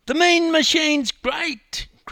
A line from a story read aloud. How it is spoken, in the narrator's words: cried a young boy